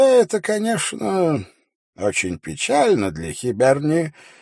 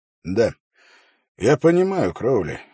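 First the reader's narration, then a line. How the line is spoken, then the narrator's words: Sighing. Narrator (Russian): вздохнул Холт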